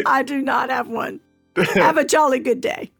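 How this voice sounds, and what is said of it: Poor put-on British accent. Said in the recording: “British accents ... My British accent is poorly lacking”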